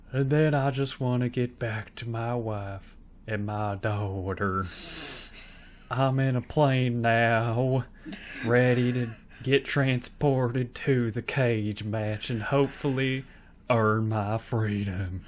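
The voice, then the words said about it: Put-on accent held throughout. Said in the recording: “I chose this accent, and I stuck with it to the bitter end.”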